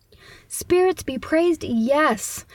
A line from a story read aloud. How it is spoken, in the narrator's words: the old man exclaims